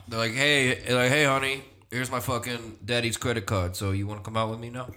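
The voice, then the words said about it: Deep-voiced frat guy character. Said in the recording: “deep voice”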